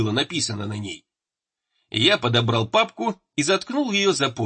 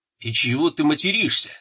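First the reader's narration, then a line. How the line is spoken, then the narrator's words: Plain. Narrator (Russian): спросил Самохвальский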